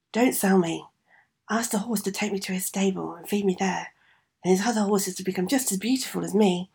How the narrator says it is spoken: the horse managed to whisper to him

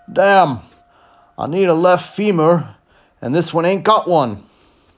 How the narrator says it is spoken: a voice, very like McCab's, called out from down the hill

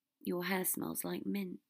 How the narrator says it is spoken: he said softly

